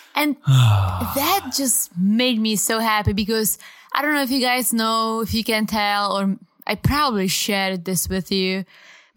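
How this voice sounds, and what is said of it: Non-native English accent. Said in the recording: “a married couple from different cultures ... I really enjoyed ... accent ... I'm very self-conscious about my accent”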